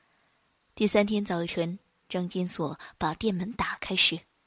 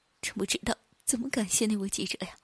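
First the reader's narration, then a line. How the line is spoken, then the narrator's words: Crying. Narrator (Chinese): 他一边哭一边说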